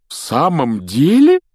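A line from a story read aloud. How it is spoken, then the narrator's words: Delighted exclamation. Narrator (Russian): с нескрываемым восторгом воскликнул мистер Уизли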